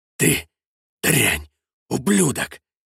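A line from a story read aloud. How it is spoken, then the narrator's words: Quiet, angry. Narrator (Russian): Негромко, но зло говорил вице-губернатор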